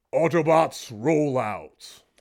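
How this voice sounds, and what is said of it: Deep robotic cartoon hero voice. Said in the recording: “your best Optimus Prime impression”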